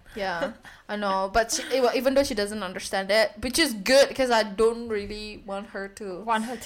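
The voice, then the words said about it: Asian-accented English. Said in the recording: “you sound like Asian ... I always will have Asian accent”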